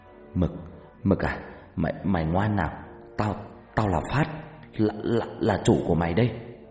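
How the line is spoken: Trembling voice. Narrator (Vietnamese): Phát giọng run run

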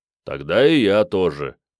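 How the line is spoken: Deep bass voice. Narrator (Russian): пробасил паладин

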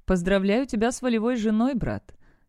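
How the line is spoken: Laughing. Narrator (Russian): Барт рассмеялся

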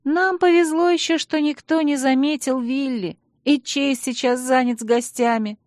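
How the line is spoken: Sighing. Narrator (Russian): вздохнула Алекс

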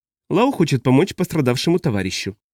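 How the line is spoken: Dry. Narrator (Russian): сухо проговорила Хоббс

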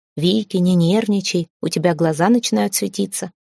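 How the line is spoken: Calm voice. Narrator (Russian): Вовремя скажет спокойным голосом

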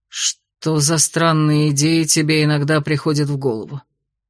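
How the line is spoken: Sighing. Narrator (Russian): Вздохнул он

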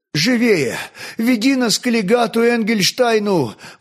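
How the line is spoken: Excited rapid chatter, young man. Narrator (Russian): взволнованно затараторил молодой

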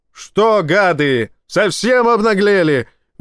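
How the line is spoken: Sudden yell. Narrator (Russian): внезапно заорал

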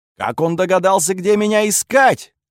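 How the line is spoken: Shouting. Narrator (Russian): кричал курфюрст

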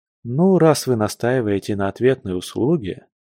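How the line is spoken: Sighing. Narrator (Russian): вздохнув, Алексей

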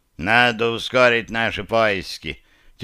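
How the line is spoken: Slightly tipsy voice. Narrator (Russian): слегка захмелевшим голосом произнес Ренни

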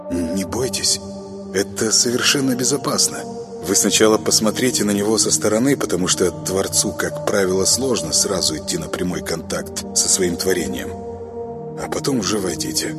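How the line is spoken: Gentle speech. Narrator (Russian): Парвиз мягко произнес

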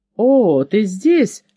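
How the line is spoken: Exclamation. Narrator (Russian): воскликнул он

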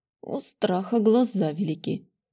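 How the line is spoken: Snorted. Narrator (Russian): хмыкнул он

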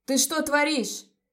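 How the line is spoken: Shouting. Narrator (Russian): закричал Леон

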